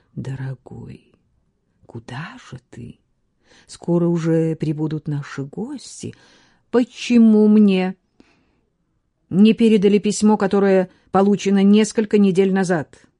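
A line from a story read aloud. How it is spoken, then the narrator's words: Deep cooing voice. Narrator (Russian): глубоким голосом проворковала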